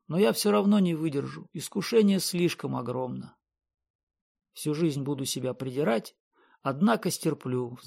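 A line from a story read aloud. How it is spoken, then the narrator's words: Sighing. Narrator (Russian): вздохнул Спангет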